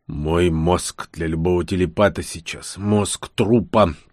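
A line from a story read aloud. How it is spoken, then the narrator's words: Continued growling. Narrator (Russian): продолжал рычать Кенгш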